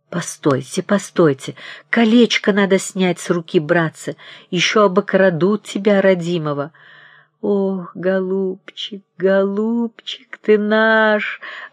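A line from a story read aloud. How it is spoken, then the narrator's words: Sobbing. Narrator (Russian): рыдала Ольга Александровна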